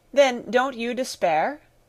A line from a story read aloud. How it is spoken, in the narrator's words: I cried irritably